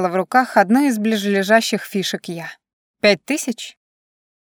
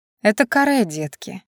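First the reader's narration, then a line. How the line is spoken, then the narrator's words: Calm. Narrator (Russian): спокойно произнесла я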